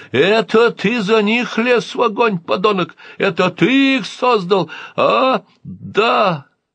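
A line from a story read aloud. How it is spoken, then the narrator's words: Desperate shout. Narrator (Russian): Отчаянно выкрикнул маэстро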